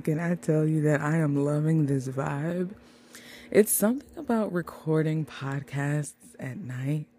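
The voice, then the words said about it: Smooth, late-night jazz radio DJ voice. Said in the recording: “it makes me play into my dream of being a jazz radio DJ ... why is ... talking like a smooth operator?”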